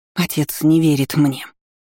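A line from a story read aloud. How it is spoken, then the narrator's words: Angry whisper. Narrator (Russian): зло прошептала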